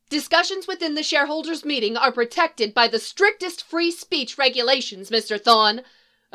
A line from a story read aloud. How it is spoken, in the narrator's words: another minority shareholder, not Ray, shouted from the second level